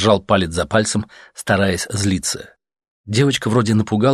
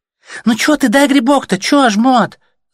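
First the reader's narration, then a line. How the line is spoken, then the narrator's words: Girl's squeak. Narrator (Russian): запищала девчонка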